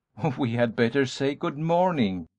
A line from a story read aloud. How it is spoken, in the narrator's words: Darrell laughed